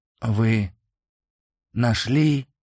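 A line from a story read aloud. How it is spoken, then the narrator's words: Hoarse breathless exhale. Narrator (Russian): сипло выдохнул он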